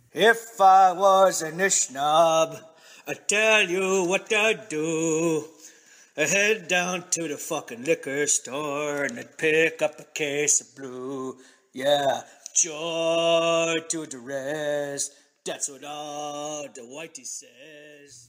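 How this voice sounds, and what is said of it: Mocking drunken stereotype voice, singing. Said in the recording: “sings in his best drunk Indian voice”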